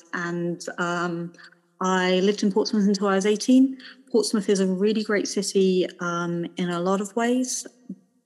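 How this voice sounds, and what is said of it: Southern English accent. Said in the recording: “as you can tell from my accent, I grew up in the Highlands. I grew up in Portsmouth, like as far down in the south of England as you can get”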